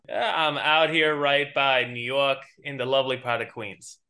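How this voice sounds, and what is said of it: New York accent. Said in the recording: “I heard that New York accent coming out”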